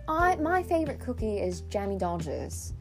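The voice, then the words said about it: Put-on British accent. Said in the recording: “you have to say that in a British accent”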